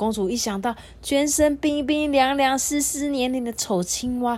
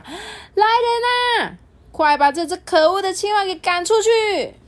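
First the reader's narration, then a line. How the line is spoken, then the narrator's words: Angry roar. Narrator (Chinese): 公主的咆哮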